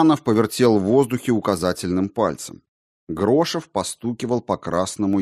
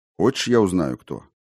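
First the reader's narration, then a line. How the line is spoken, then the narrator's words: Quiet question. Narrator (Russian): спросил Лобанов негромко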